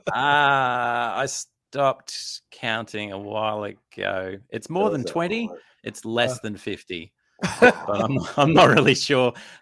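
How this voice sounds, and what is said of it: Australian accent. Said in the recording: “my wonderful accent is Australian”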